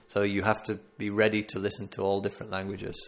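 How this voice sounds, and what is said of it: Northern English accent, fairly standard. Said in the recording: “I'm from the north of England. I've got a northern accent, but quite a standard English accent.”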